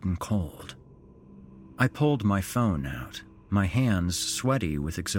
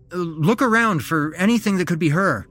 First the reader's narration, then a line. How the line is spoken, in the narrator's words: I blurted out